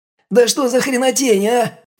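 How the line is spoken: Panicked screaming. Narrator (Russian): завопил тот в панике

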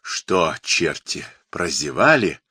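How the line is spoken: Enraged growl. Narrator (Russian): рычал с налитыми кровью глазами

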